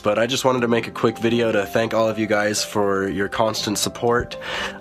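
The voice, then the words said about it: Sick-sounding voice. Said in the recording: “I'm sure you can hear it in my voice that I've been sick for a few days now”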